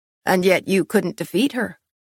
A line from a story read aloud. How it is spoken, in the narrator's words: he laughed coldly